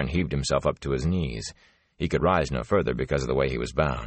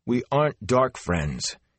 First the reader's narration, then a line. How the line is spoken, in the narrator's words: he protested angrily